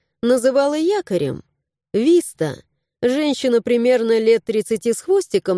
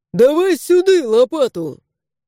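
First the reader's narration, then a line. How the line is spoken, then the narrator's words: Loud barked shout. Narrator (Russian): Гаркнули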